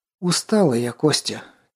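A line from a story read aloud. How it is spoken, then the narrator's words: Heavy sigh, weary words. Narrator (Russian): тяжело вздохнув, неожиданно произнесла артефакторша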